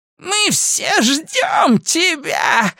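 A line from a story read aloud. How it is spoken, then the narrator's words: Witch shouting. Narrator (Russian): закричала ведьма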